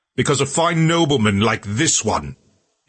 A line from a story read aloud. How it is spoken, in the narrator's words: he shouted out to the crowd